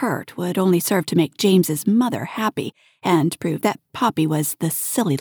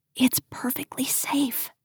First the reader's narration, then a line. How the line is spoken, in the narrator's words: she whispered